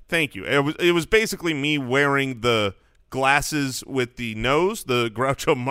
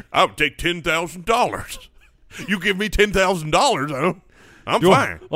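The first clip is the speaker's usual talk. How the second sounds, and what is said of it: Put-on stupid-sounding voice. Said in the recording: “Why are we using that voice? ... I feel like you got to be have a stupid voice to be a stupid person ... that's why I do the voice.”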